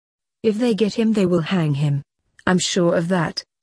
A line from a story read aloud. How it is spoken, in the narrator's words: said Sir Justin sadly